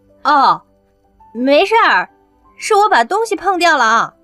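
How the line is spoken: Calling out, stifling laughter. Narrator (Chinese): 刘亚楠赶紧憋着笑对门外的人喊着

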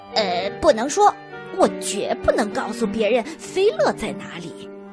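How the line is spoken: Muttering. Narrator (Chinese): 嘴里嘟囔着

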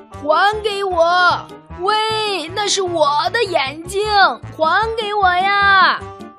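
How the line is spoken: Frantic shout. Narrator (Chinese): 法官急得大叫

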